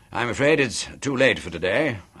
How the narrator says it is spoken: babbled on cheerfully

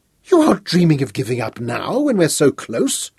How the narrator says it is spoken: Her voice rose sharply with agitation

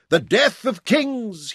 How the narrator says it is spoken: he cried

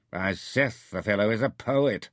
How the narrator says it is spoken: Narja sneered

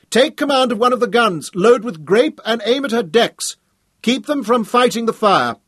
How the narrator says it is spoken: Hal shouted

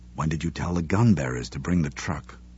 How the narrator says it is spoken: Her father asked softly

